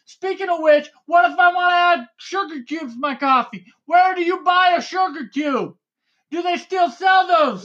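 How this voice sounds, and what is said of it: Yelling excitedly. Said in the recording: “why are you yelling?”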